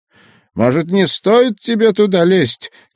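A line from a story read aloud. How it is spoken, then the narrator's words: Shouted. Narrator (Russian): крикнул он мне в спину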